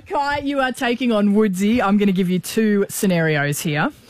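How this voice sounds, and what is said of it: Put-on Canadian accent. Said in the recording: “Excuse my Canadian accent. ... that's my Canadian accent.”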